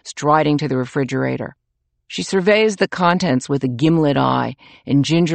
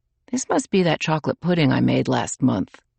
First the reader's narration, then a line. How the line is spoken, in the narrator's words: murmuring